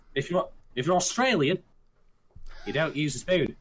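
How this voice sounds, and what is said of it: Bad put-on Australian accent. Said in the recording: “That's a really bad Australian accent”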